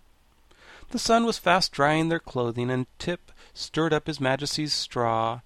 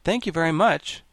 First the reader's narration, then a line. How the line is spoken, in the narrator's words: said the monarch brightly